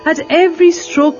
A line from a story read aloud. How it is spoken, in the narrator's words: Malsapati cried out